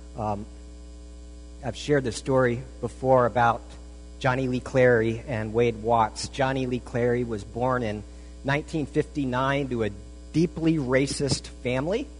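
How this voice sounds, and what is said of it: Hoarse, whispered voice. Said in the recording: “I got a cold last week, and so my voice is pretty much shot. It's going to be my first ever whispered sermon, so you can lean forward.”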